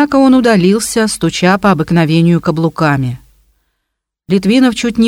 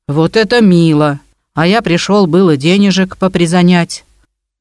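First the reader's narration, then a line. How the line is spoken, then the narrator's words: Grumbled. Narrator (Russian): проворчал Биндасов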